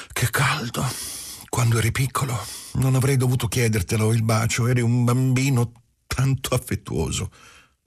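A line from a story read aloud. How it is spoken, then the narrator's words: Sighing. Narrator (Italian): disse con un sospiro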